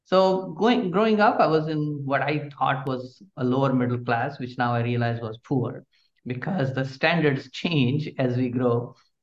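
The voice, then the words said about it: Indian English accent. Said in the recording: “my accent, as you can guess ... is not from Palm Coast, not from Daytona. It's from India. And I'm sure people can recognize that easily.”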